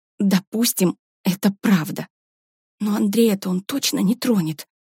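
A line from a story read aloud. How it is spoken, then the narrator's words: Whisper. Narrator (Russian): прошептала Варя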